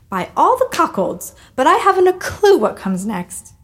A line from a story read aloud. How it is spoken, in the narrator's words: cackled